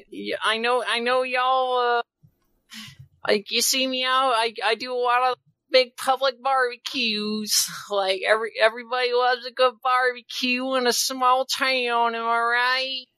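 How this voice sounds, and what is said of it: Put-on character accent. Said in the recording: “veto this accent ... It hurts to hear ... It's simultaneously so good and so awful”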